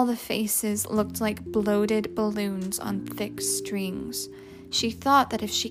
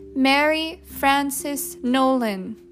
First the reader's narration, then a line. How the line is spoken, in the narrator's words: Miserably, Francie said loudly